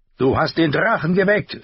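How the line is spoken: Scream. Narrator (German): schrie

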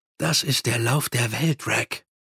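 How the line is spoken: Murmuring. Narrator (German): murmelte Mumm

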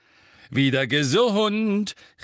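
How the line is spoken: Beaming call. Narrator (German): rief er strahlend in die Küche hinein

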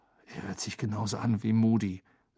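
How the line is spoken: Quiet speech. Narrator (German): sagte Harry leise

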